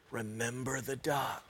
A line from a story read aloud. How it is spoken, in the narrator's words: she whispered